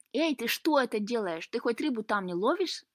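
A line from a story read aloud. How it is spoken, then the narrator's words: Exclaiming. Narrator (Russian): воскликнул Лука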